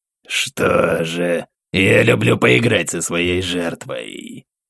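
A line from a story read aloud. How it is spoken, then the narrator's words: Demon's purring growl. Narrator (Russian): зарычал демон, чем-то напоминая мурлыканье дикой кошки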